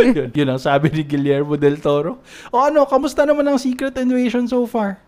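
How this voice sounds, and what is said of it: Usual voice. Nothing is said of it.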